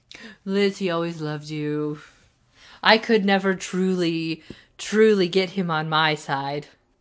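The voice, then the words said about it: Imitates another person's voice, poorly. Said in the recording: “That was a terrible, terrible imitation of Tess.”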